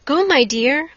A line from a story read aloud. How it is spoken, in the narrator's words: cried her mother